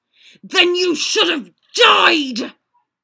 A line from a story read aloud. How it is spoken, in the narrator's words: roared Black